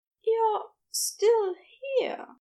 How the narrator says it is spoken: he said in a breathless voice

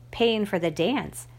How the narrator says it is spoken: I replied

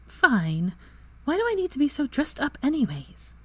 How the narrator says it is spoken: Draco looked down at her dress robes and sighed

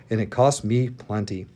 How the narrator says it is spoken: the commander muttered

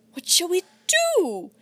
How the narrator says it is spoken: wailed Kit

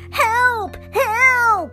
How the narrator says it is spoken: screamed

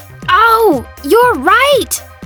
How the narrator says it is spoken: Omar exclaimed

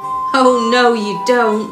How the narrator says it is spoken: laughed Pumpkin in a thick, throaty sort of voice

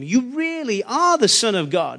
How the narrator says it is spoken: they exclaimed

